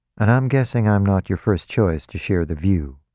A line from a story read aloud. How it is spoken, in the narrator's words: James said